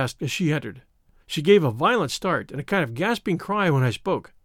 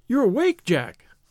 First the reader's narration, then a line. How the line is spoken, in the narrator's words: she cried, with a nervous laugh